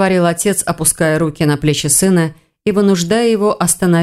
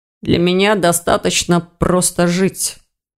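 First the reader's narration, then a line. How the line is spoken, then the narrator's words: Muffled, hollow voice. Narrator (Russian): глухо отозвался Ирс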